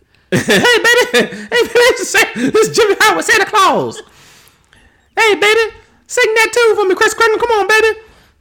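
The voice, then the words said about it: Imitates another person's voice. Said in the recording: “I got all the impersonations.”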